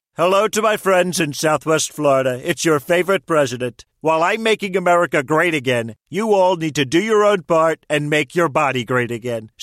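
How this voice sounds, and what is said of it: Celebrity impersonation of the president. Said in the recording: “Celebrity voice impersonation.”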